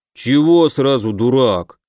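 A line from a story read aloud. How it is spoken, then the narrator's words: Displeased grumble, big man. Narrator (Russian): недовольно заворчал здоровяк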